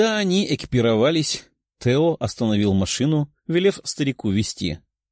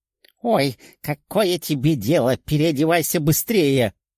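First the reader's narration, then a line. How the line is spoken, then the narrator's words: Old man grumbling. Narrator (Russian): проворчал старик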